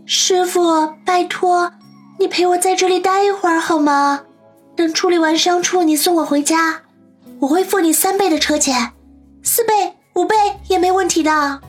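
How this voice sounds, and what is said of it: Soft, pleading voice. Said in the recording (Chinese): “小声哀求着说”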